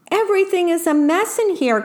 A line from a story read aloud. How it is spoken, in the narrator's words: cried the worm